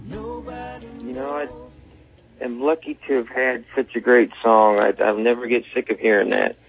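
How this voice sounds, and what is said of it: Slight Nashville twang. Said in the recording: “even though you're from Northern California, you do have a little bit of that Nashville twang... It does get in there.”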